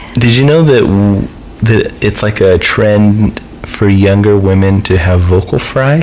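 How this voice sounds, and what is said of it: Usual voice. Nothing is said of it.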